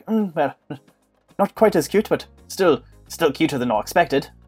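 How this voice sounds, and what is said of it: British character voice. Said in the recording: “Mr. Backlot has every British accent. You'll run through the entire gamut”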